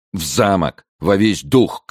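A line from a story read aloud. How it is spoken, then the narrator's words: Shouted. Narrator (Russian): крикнул Пелисон кучеру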